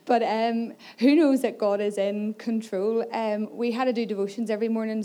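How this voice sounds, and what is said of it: Slightly hoarse voice. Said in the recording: “my voice is a little bit hoarse because I spent most of my time shouting”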